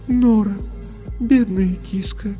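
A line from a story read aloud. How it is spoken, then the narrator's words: Sad voice. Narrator (Russian): печально произнес голос Софии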